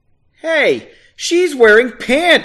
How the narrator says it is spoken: he yelled

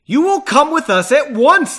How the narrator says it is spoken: the man with the scroll stated loudly

